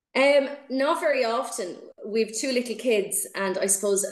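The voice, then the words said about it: Dublin Irish accent. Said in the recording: “you're from Dublin originally, I'm guessing, or that area by your accent”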